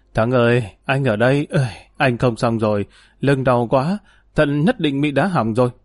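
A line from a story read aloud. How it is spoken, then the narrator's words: Trembling voice. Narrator (Vietnamese): run rẩy nói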